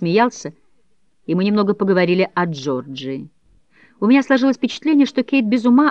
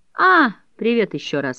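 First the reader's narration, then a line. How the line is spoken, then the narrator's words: Bored. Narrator (Russian): сказал он скучным голосом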